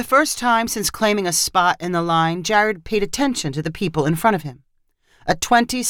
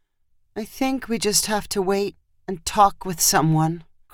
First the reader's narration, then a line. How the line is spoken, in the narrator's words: Christy answered in a hollow voice